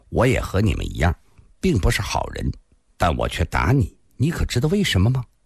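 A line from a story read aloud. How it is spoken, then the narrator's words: Cold. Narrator (Chinese): 蓝蝎子冷冷地说道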